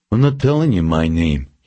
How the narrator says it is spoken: he said

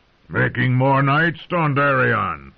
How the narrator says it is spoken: the intruder said in a growl

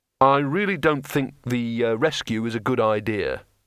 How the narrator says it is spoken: he said

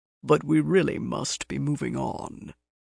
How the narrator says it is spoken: he murmured

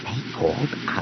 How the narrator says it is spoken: he muttered

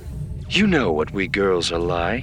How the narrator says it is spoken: said a slightly rasping patrician voice over the open comm

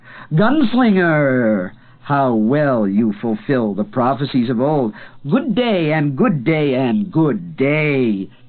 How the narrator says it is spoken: He laughed, the sound echoing ever over the bellow of the falling water

